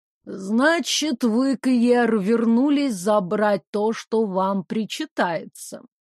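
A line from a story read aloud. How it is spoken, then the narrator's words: Slow speech. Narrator (Russian): медленно проговорила она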